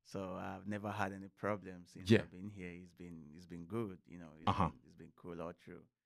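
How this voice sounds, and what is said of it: Speaker's own accent. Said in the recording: “wow, I like your accent. I like how you talk.”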